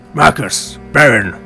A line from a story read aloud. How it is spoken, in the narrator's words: he gruffly acknowledged